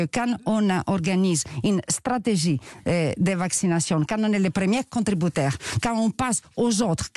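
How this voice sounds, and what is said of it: Greek accent in French. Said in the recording (French): “Franco-grec ... on l'a entendu à votre accent”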